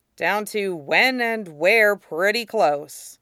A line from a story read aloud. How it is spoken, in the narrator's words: Zuko said dryly